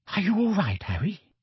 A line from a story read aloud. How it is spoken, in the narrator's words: Hermione whispered